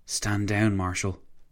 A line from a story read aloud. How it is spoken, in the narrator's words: Massigli said, his voice barely above a whisper